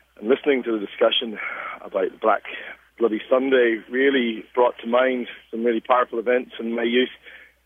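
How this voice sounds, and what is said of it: Northern Irish accent. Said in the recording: “you can probably tell from my accent, I'm actually from Northern Ireland”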